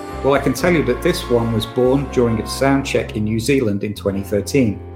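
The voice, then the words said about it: Weak put-on Yorkshire accent. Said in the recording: “my Yorkshire accent is not that good anymore, so you'll just have to take this, whatever accent this is”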